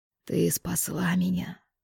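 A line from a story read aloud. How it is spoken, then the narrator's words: Whisper. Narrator (Russian): прошептал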